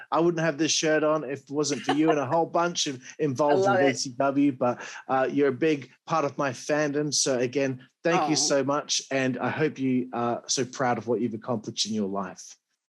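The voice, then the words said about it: Appealing regional accent. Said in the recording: “your accent is very appealing. I could listen to you talk all day long”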